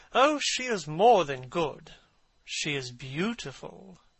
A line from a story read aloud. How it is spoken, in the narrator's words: murmured Lord Henry